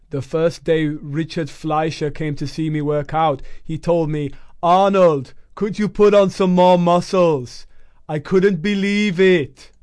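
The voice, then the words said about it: Poor imitation of another person's accent. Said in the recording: “please excuse my horrific accent.”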